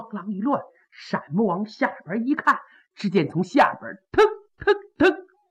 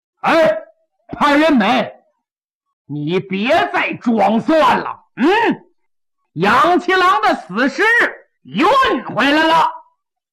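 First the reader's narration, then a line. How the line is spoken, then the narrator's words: Shout from below. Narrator (Chinese): 下边有人喊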